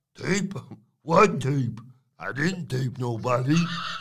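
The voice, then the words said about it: Bad impression of Stacks. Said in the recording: “Terrible Stacks impression.”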